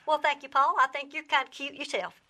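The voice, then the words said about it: Fake Southern accent, granny character. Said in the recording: “Is the accent, the Southern accent, real or not? ... No, it is not real. ... Oh, that was a fake.”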